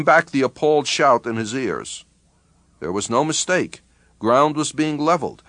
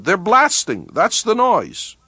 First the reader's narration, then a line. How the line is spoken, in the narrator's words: Mishnov shouted